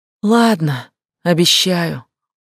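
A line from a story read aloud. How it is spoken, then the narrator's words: Sighing, displeased reply. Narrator (Russian): Рейк вздохнул и недовольно ответил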